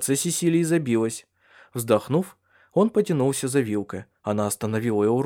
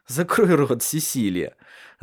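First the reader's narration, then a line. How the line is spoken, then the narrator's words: Laughing. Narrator (Russian): засмеялся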